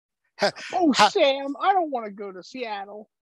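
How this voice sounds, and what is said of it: Imitates another person's voice. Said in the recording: “my Shelley Long impression”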